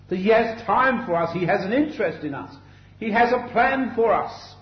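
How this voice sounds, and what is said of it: London English accent. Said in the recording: “I come from London by my accent.”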